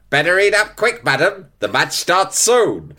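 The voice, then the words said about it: Old-fashioned promotional film voiceover. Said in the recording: “doing an impression of an oldies-fashioned sort of promotional film ... the voiceover goes”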